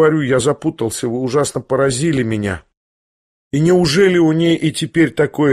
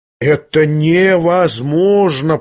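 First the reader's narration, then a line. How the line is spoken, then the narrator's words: Drawling. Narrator (Russian): протянул Евгений Павлович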